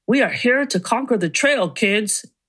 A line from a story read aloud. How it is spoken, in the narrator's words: bellowed to us